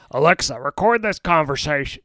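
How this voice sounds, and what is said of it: Bad Richard Nixon impression. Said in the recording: “terrible Nixon impression. ... Yeah, it's pretty bad.”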